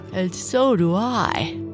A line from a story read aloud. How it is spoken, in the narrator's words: mother said, yawning